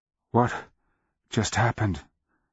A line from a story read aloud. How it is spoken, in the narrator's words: Nilgicus gasped, hacking gouts of blood with the words